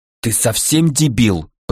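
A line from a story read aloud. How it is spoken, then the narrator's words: Through gritted teeth. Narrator (Russian): процедила сквозь зубы Ната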